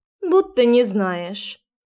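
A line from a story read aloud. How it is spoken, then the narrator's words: Snorting, dismissive. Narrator (Russian): фыркнула подруга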